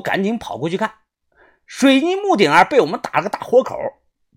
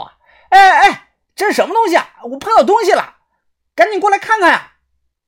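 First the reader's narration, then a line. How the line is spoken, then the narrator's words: Loud shout. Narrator (Chinese): 豆芽仔大喊道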